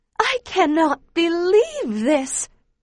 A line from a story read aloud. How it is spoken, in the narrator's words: the mother squeals